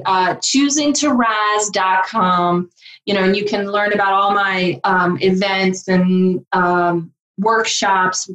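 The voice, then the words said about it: Southern American accent. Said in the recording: “this is where my Southern accent's going to come in”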